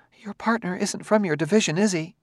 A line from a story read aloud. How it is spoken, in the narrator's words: She said, shakily